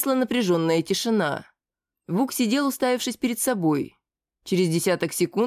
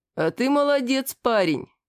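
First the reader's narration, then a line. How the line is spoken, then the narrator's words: Short laugh. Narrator (Russian): хохотнул Зиг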